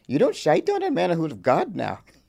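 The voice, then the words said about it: Put-on Irish accent. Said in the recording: “I've been working on my Irish accent.”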